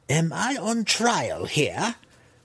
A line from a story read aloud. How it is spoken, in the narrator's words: Malice cried